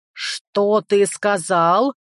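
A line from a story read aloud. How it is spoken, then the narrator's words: Growling. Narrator (Russian): зарычала она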